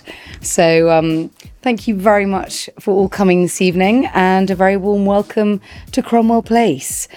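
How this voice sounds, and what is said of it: Hoarse, fading voice. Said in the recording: “I'm losing my voice slightly”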